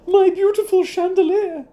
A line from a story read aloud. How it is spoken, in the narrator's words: she cried